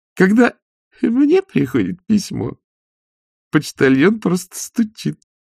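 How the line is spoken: Ballerina giggling. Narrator (Russian): хихикнула одна из балерин

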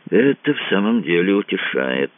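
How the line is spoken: Dead flat voice. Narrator (Russian): мертвым голосом отозвался Кацуба

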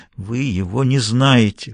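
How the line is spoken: Hoarse repetition. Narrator (Russian): хрипло повторила она

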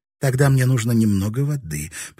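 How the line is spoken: Timid babble. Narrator (Russian): пролепетала

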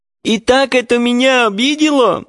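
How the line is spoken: Sobbing. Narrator (Russian): продолжала она, всхлипывая

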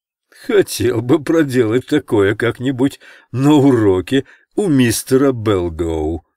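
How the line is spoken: Childish laughter. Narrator (Russian): сказал Спиди и захохотал, как ребенок

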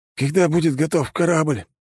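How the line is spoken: Hoarse, coughing. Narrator (Russian): прохрипел я, закашлявшись

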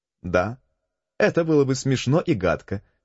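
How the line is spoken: Laughing. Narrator (Russian): смеясь, сказала служанка

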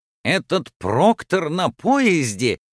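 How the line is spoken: Exclamation. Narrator (Russian): воскликнул Фикс

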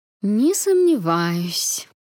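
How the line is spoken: Sweet drawl, older woman. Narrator (Russian): со сладкой улыбкой протянула старшая

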